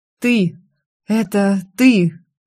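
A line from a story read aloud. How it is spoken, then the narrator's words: Breathless exhale. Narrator (Russian): выдохнул мой муж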